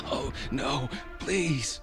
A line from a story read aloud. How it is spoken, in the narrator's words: I wheezed